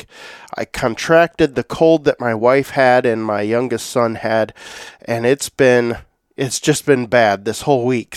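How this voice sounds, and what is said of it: Nasal, congested voice from a cold. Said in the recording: “If you can't hear it in my voice, I have been sick all week... I sound a little nasally”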